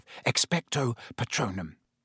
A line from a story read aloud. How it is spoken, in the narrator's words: Harry repeated under his breath